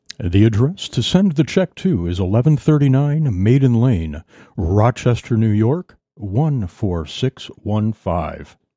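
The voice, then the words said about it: Put-on radio announcer voice. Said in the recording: “Let me put my best radio voice on here. Sound like an announcer guy. ... You said like a radio guy. ... you put that radio voice on every once in a while.”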